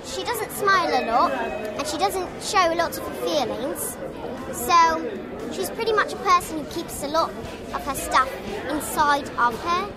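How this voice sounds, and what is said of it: Child doing a good English accent. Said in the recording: “take lessons in sounding English ... And then she slips into the accent. ... That accent's pretty good.”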